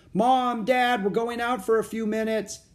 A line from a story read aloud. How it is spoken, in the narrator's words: Jack shouted